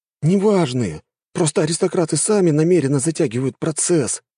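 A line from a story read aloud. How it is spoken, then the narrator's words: Sighed. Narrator (Russian): вздохнул Жора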